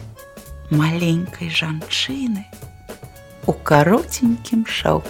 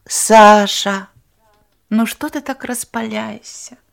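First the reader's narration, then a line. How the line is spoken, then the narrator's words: Tender. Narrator (Belarusian): Нават ласкава сказала яна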